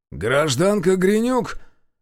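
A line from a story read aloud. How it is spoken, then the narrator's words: Barking inquiry. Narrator (Russian): тем же гавкающим тоном осведомился незнакомец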